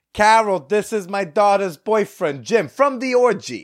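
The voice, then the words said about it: Put-on, roughly Long Island accent. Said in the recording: “what kind of accent was that? ... This is almost Long Island. I'm not quite sure.”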